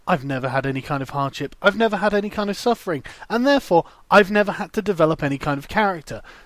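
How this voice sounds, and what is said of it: Posh upper-class accent. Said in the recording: “You can hear my accent is perfect. I am obviously upper class.”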